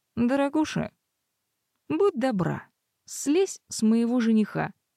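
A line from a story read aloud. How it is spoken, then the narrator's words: Calm request. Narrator (Russian): попросила я спокойно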